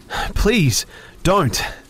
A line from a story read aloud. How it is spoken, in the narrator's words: I begged, almost screaming